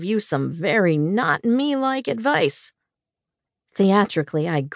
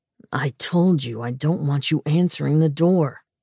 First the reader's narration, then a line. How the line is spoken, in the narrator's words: he growled